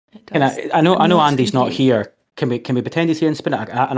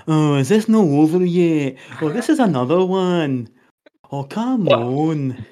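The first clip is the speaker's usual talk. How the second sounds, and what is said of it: Good impression of a colleague. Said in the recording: “that was quite a good impression, was it not? That was not bad.”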